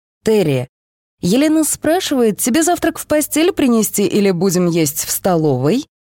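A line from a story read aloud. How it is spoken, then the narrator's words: Cheerful shout. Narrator (Russian): весело прокричал брат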